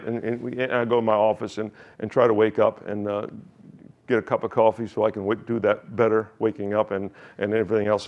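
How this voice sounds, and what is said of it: American accent. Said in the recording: “my accent is still American”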